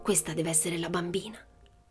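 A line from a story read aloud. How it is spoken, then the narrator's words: Whispered. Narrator (Italian): sussurrò Tuono Carlson a Blom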